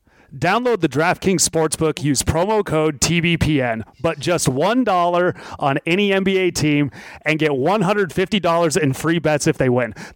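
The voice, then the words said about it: Polished radio announcer voice. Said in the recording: “He's got a radio voice.”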